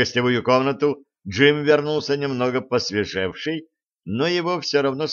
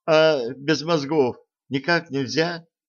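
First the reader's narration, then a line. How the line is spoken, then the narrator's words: Weak questioning voice. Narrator (Russian): слабым голосом спросил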